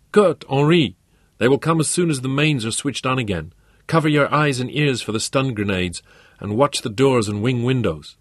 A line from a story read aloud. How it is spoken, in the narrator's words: Ingrid used the oxygen in her lungs to shout into the microphone